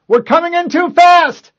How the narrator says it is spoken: The pilot had time to yell

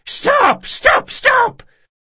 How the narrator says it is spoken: Locke let him scream

